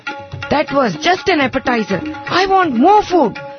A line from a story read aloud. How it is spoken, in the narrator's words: Ganesha yelled